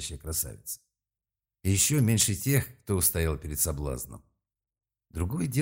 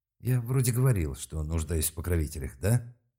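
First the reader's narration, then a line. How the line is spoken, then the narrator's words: Mumble. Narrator (Russian): пробормотал Малк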